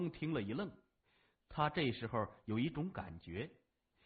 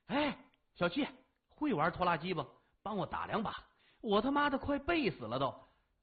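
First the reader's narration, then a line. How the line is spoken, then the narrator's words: Loud clamoring. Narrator (Chinese): 老四 大声嚷嚷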